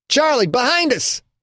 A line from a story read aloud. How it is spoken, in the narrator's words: Tony shouted